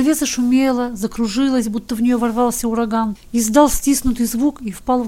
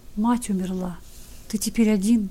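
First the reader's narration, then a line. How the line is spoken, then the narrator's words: Whisper in the ear. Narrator (Russian): в ухо будто кто-то шепнул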